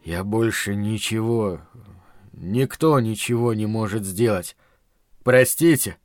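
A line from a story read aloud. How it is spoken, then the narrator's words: Near moan. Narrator (Russian): почти простонал Дамиан Рохас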